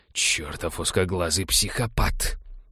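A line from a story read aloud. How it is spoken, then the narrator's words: Muttering. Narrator (Russian): пробормотал Балфер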